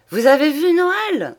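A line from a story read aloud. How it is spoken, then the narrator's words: Old man exclaiming. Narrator (French): s'écria le bonhomme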